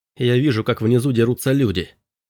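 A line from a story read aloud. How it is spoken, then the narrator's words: Plain. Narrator (Russian): сказал Робби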